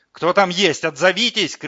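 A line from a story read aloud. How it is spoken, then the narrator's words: Shouting. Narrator (Russian): кричал Улис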